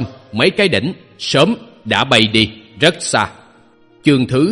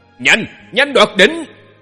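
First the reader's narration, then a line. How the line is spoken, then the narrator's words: Yelling. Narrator (Vietnamese): gào lên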